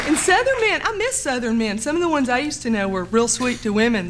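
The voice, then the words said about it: Southern American accent. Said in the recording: “I still have an accent... She's from the South.”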